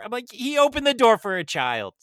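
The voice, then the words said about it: Yelling. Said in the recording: “I'll stop yelling.”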